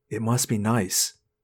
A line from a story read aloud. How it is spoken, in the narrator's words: I whispered to him